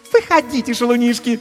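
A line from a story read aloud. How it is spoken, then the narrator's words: Languid squeal. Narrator (Russian): томно взвизгнула Катисса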